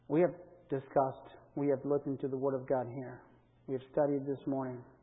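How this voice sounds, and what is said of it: Non-native English accent. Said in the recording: “very patient with my accent at times and my lack of proper vocabulary”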